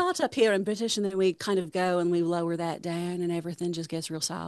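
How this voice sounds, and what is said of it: Usual voice. Nothing is said of it.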